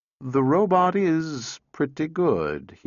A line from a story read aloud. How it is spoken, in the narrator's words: he said slowly